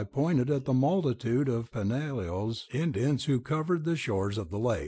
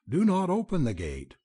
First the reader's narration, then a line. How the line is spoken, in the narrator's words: I continued hastily